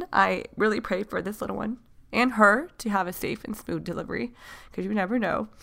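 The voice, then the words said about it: Emotional, near-tearful voice. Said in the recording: “I don't want to cry again. ... The reason why I'm getting emotional ... sorry, I'm emotional”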